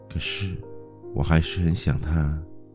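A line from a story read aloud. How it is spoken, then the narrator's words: Sad murmur to oneself. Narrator (Chinese): 声音哀伤的喃喃自语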